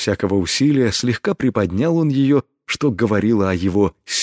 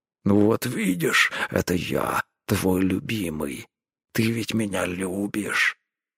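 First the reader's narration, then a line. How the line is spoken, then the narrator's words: Satisfied growl. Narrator (Russian): удовлетворенно рыкнул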